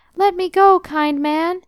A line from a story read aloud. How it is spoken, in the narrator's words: the little creature cried